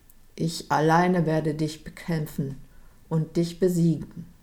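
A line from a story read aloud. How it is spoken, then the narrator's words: Small knight calling down. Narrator (German): stand der kleine Ritter rief hinunter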